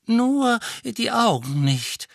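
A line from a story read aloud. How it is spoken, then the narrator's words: Old wizard's wheezing voice. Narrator (German): sagte ein silberhaariger Zauberer mit pfeifender Stimme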